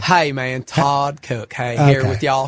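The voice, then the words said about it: Imitates another person's voice. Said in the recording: “the Todd accent ... Todd's easy”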